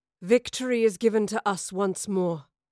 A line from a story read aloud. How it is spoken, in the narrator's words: growled Boudicca